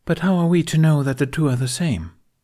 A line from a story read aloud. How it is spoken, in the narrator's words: Shaak-Ti asked in a reasonable tone